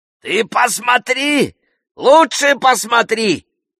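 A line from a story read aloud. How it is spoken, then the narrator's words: Bogeyman shouting. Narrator (Russian): закричал бабай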